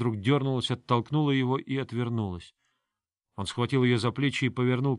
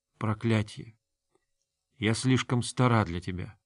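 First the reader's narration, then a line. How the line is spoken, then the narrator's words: Whispered. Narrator (Russian): она прошептала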